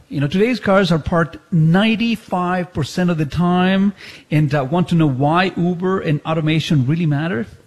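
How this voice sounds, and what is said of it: Speaker's own accent while reading. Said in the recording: “whenever I read, my accent comes out”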